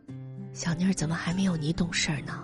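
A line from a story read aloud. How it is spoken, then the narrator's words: Murmuring. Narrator (Chinese): 吴娟喃喃的说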